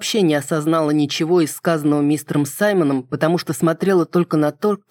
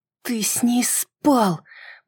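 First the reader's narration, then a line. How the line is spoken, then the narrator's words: Hissed whisper. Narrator (Russian): прошипела я в надежде, что остальные слишком заняты, чтобы прислушиваться к моему шепоту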